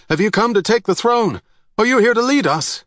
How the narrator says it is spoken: someone in the crowd shouted out

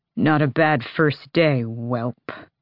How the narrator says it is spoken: Elgin grumbled

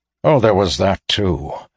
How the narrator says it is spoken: Alaris assured him dryly

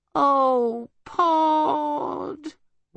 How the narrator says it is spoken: wailed Homily

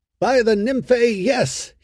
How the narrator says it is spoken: he said, laughing

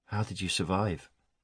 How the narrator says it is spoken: Aaron asked quietly

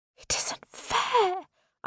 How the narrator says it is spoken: I whisper

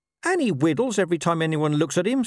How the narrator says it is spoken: snapped Gaspard

